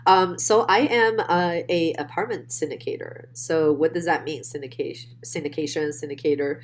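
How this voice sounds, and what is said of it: Speaks with a foreign accent. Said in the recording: “that wonderful accent”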